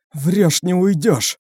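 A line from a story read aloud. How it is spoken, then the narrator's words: Hoarse wheeze. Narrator (Russian): прохрипела Элфи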